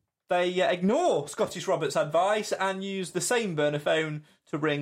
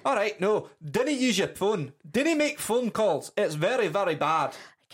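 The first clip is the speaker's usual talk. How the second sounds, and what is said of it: Bad put-on Scottish accent. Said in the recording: “As was the accent, I apologise to everybody in Scotland.”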